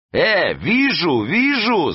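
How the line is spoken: Yelling. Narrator (Russian): завопил он

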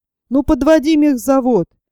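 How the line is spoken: Hurried shout. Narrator (Russian): старший на шмоне, торопясь скорее освободиться, крикнул конвою

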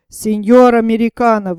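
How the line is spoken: Tipsy exclamation. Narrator (Russian): воскликнул полупьяный мустангер

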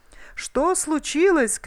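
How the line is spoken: Shout. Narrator (Russian): крикнул Бильбо

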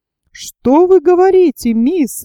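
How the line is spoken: Exclaiming. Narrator (Russian): воскликнул Джон Манглс

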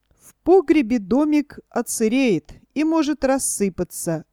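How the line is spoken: Timid objection. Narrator (Russian): робко возразил кум Тыква

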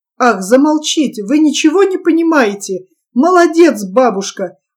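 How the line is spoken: Delighted child's exclamation. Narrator (Russian): воскликнул мальчик в восторге

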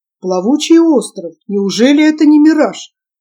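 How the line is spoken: Surprised exclamation. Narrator (Russian): воскликнул удивленный Сабатье

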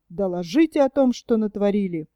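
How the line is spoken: Stern commanding order. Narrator (Russian): начальник штаба грозно приказывает

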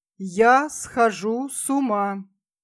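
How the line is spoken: Slow, almost solemn. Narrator (Russian): сказал медленно, почти торжественно

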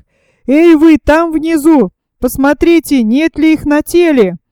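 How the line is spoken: Shout. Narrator (Russian): снова крикнул слепой

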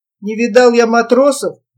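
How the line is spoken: Grumbled. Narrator (Russian): буркнул Гаврик

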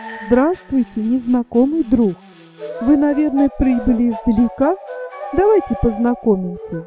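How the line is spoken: Sweet voice. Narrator (Russian): сладким голосом сказала

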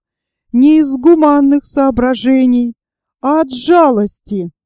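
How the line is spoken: Tearful. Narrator (Russian): Смирнов сквозь слезы сказал

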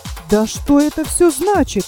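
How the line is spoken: Exclaiming. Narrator (Russian): воскликнул скряга

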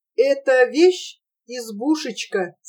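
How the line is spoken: Whisper. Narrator (Russian): сказал шепотом

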